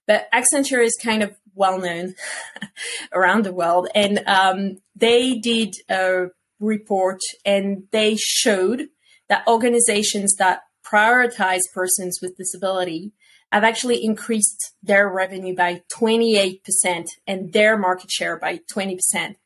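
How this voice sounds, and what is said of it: French-accented English. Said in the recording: “That's my French accent coming back.”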